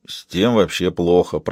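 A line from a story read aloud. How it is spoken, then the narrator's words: Embarrassed mumbling. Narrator (Russian): промямлил Тони, окончательно тушуясь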